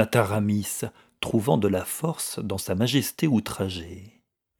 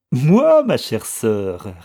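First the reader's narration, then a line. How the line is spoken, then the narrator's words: Girl sneering. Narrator (French): ricana la fille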